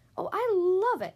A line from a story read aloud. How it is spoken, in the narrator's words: exclaimed the fox